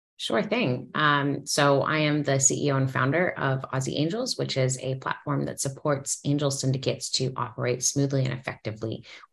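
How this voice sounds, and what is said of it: Canadian accent. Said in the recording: “our audience will detect the accent pretty quickly. I believe you're from Canada”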